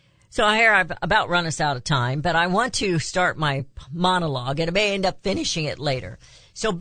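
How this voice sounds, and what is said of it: Usual voice. Nothing is said of it.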